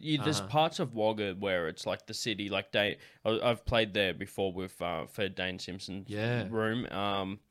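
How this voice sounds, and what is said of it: Central West New South Wales accent. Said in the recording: “I have a Central West New South Wales accent”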